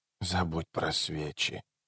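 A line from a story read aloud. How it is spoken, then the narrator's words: Girl's muffled strange mutter. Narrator (Russian): пробормотала девочка глухим, странным голосом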